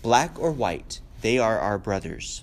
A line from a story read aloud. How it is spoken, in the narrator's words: Emily Brent said sharply